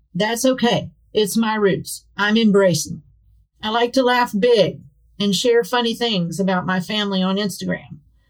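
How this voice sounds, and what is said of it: West Virginia rural accent. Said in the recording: “I'm a West Virginia gal with a hick accent.”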